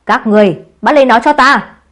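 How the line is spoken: Angry yelling. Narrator (Vietnamese): Đức Lý Tư bực tức hò hét

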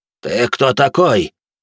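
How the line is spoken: Old man's gruff bark. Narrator (Russian): рявкнул седой мужик в летах

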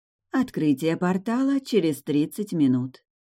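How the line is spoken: Gentle little girl's voice. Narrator (Russian): сообщила малышка ласковым голосом

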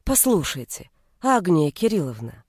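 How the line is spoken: Soft, ingratiating. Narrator (Russian): мягко и вкрадчиво заговорил он

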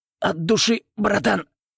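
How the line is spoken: Wheezing rasp. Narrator (Russian): прохрипел я

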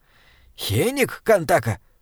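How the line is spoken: Hissed. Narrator (Russian): прошипел Бинбек

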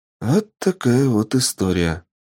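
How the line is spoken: Sighing. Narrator (Russian): вздохнула

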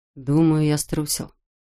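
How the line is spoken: Quiet confession. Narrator (Russian): тихо признался Салли

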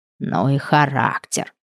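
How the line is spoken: Hiss. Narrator (Russian): прошипела Глашка

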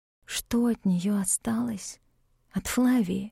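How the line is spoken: Whispered. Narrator (Russian): прошептала я

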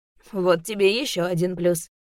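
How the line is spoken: Laughing. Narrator (Russian): рассмеялся Ветров

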